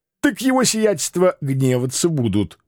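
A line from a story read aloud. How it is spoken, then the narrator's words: Snort. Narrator (Russian): хмыкнул он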